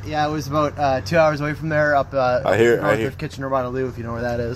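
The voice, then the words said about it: Canadian accent. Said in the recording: “I hear your accent. I hear the about.”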